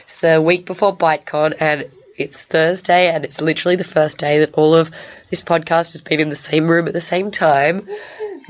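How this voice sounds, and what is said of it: Hoarse, strained voice. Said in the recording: “I sound like I'm losing my voice.”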